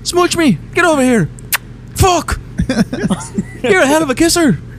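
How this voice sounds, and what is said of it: High-pitched, breathy put-on Irish accent. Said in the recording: “Your Irish accent is always up here ... It sounds like an old young man ... He's got like the high pitched thing going, but he's got like the breathiness of like an old man ... the urgency of an old man”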